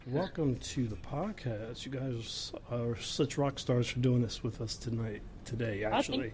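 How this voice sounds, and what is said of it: Hoarse voice from a cold. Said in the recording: “my voice is a little crazy ... I'm like catching a cold”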